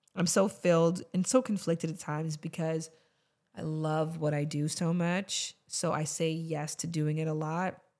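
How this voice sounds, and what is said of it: Hoarse voice. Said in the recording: “my voice is so hoarse.”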